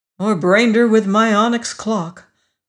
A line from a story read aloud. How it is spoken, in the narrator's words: I added with a sigh